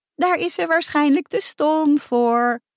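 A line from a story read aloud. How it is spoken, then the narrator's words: Laughing. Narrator (Dutch): lachte Emma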